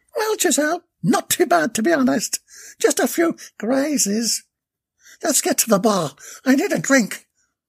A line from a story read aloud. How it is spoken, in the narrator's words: Bella exclaimed soulfully